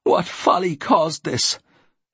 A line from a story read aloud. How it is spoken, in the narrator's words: she said in a tearful tone